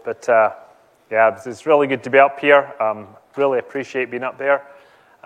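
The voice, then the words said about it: Speaks with a noticeable accent. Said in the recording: “I've got a bad accent as well, so that's going to be a bit of a problem”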